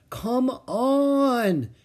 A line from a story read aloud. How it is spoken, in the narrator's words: he pleaded